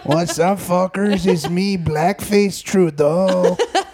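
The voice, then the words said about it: Put-on Mexican accent. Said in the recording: “doing a Mexican accent”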